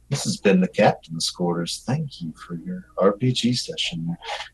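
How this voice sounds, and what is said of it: Smooth radio announcer voice. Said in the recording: “I got to get my radio voice back on”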